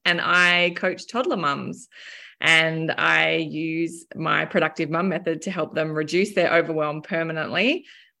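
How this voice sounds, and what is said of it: Australian accent. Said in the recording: “I'm based down in Melbourne, Australia. You can probably tell from my accent.”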